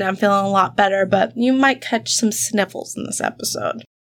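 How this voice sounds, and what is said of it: Stuffed-up, congested voice. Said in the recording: “I'm coming back from a sinus infection, so if I sound a little stuffed up,”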